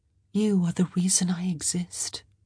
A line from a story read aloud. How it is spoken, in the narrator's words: she said softly